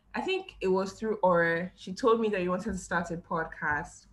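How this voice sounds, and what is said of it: Blended British, American, Nigerian accent. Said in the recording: “yours is like British, American, Nigerian experiences just come together. It just sounds so good ... I love your accent.”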